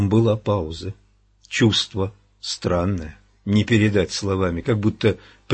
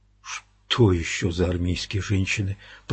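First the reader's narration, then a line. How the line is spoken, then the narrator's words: Muttering under breath. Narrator (Russian): пробормотал Эдди вполголоса, совершенно не сознавая того, что он говорит вслух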